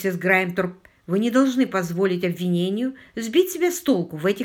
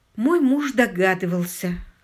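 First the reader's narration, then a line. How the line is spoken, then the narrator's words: Hoarse reply. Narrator (Russian): хрипло ответила миссис Грайнтер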